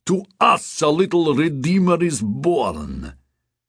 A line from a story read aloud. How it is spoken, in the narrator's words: Bobo shouted in triumph